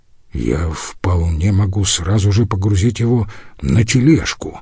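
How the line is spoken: Mumbled. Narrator (Russian): пробормотал золотарь

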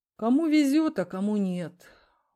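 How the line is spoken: Sigh. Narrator (Russian): вздохнул Николай

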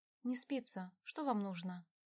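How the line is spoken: Sighing. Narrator (Russian): Он вздохнул

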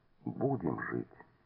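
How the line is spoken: Quiet. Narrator (Russian): тихо сказал

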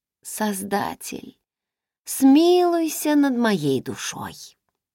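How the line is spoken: Cooing with delight. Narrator (Russian): проворковала я, когда сладкий кленовый сироп брызнул мне на язык

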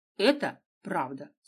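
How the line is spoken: Calm reply. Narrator (Russian): спокойно ответила Дина

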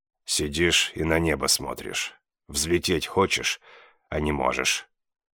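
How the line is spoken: Quiet, killer's voice. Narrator (Russian): тихо добавил убивец

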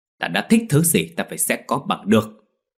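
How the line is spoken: Angry, louder. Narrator (Vietnamese): Đường Phi tức giận nói lớn hơn

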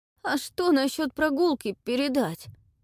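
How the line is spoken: Trembling question. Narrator (Russian): Дрожащим голосом все же спросил отрок

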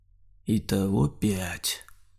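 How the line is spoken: Muffled, hollow. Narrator (Russian): глухо сказал Саня

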